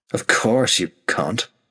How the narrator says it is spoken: Himbolt spat

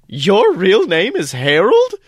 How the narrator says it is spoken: asks, stifling a bit of laughter

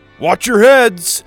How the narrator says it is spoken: he shouted

